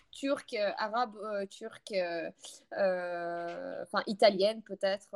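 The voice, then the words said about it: Eastern European accent in French. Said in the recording (French): “ils remarquent plus par rapport à l'accent, en fait, que, que je suis de pays de l'Est.”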